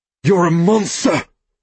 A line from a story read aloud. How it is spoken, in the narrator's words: I snarl at the old man